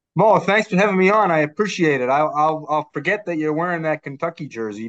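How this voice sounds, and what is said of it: Boston accent. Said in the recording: “your Bostonian accent”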